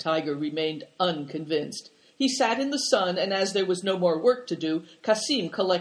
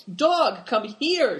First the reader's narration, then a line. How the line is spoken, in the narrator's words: shouted Christian and Big Tiger